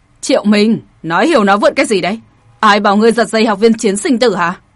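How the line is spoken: Loud shout. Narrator (Vietnamese): Có một vị lớn tiếng quát

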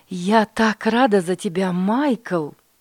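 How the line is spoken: Mother exclaiming. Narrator (Russian): воскликнула мама

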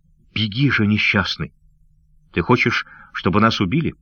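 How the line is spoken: Urgent whisper. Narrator (Russian): прошептав

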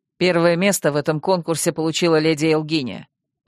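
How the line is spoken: Peremptory announcement. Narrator (Russian): самым непререкаемым видом объявил принц

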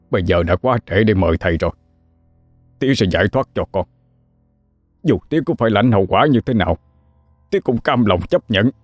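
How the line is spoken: Stern, strained reply. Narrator (Vietnamese): Ông Hai cho gằn giọng đáp lại lời con

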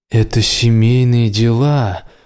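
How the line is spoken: Through gritted teeth, another's voice. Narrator (Russian): процедила Астрид голосом Рая

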